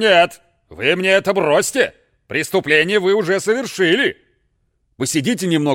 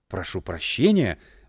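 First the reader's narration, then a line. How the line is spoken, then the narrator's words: Guilty mumbled apology. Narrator (Russian): бормотал провинившийся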